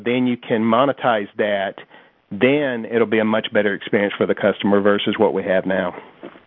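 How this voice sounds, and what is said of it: Small-town rural American accent. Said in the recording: “you make no attempt to hide your accent, to pretend you're not really from a small town ... people with accents”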